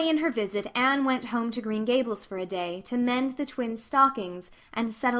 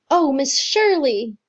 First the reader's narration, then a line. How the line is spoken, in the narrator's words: he cried excitedly